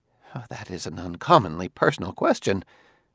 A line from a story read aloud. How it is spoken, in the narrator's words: The sociologist muttered